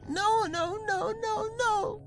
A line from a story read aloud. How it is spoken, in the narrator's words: screamed